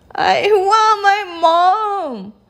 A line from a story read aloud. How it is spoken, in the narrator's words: howled the little princess